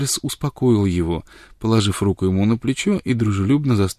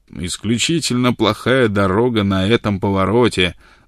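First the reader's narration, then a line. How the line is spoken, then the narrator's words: Thunderous voice. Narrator (Russian): заявил он громовым голосом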